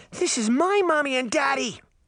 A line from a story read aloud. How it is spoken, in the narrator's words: the little girl shrieked as she jerked away